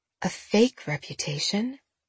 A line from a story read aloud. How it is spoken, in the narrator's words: Jenna muttered